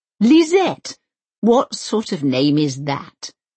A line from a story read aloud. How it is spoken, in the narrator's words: spluttered